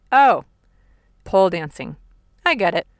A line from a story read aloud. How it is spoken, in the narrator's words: my daughter blurts out